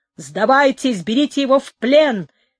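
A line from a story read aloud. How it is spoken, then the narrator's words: Shouting. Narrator (Russian): кричал Тристани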